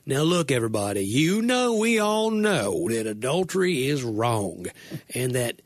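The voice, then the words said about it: Southern-accented Jesus impression. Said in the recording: “that accent ... dead-on impression of Jesus in Aramaic ... Alabama-maic”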